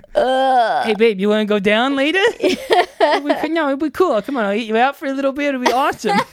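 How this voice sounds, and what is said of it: Imitates another person's voice. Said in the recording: “Leguizamo has the sexiest accent ever ... My accent is so sexy”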